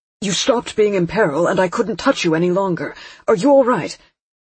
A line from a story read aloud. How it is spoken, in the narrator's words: I began